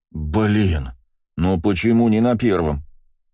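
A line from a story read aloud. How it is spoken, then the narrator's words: Sigh. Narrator (Russian): вздохнул Астарот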